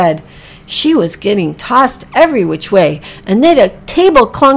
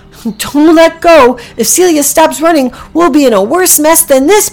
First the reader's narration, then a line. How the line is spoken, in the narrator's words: Packy yelled back